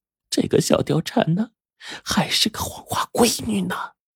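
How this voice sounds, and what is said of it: Quiet, hushed speech. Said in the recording (Chinese): “小声说”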